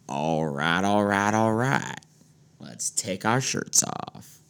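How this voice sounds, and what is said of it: Matthew McConaughey impression. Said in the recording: “doing a Matthew McConaughey impersonation”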